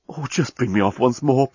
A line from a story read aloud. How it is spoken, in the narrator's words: pleaded